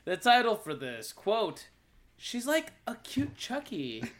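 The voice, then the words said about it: Put-on preppy voice. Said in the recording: “I try to do my preppy voice.”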